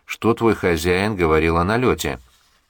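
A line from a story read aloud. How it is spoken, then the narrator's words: Overly dry question. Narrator (Russian): ответил ему капитан, как показалось Виктору излишне сухо, и спросил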